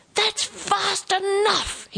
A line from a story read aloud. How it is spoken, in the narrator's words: shouted